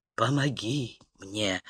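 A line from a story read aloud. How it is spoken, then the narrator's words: Hoarse whisper. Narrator (Russian): хрипло прошептал Тирль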